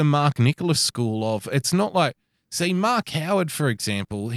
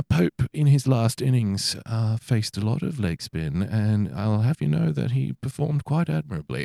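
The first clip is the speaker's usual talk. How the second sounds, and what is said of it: Subtle put-on British commentator accent. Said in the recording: “in that British accent, yeah. It's more subtle”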